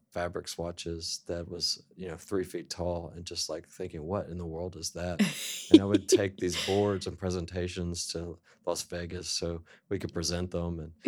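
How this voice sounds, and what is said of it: Mild Southern American accent. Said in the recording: “you have a little bit of a southern accent.”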